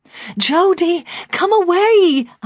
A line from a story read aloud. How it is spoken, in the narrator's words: I cried